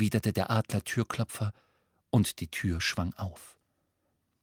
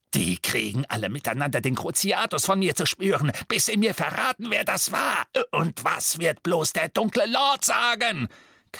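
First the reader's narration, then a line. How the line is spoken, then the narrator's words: Shrieking. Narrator (German): kreischte er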